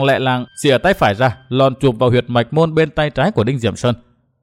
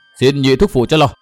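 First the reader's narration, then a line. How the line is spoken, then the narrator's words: Shout. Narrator (Vietnamese): Nguyên Bình hét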